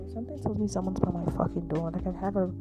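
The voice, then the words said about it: Whispering. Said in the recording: “I need to whisper in case someone's around.”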